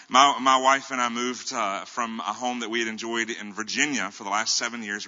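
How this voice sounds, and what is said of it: Southern American accent. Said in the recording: “mutual Southern friends ... They asked me if I'm going to change my accent. I said, no”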